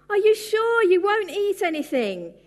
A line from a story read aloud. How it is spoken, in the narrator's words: he cried out as he walked away begrudgingly